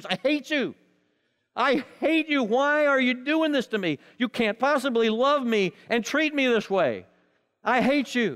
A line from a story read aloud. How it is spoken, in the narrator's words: angrier and angrier, shouting match, screams